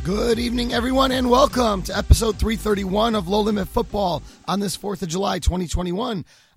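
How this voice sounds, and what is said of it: Tired, strained voice. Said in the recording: “My voice is a little dead today”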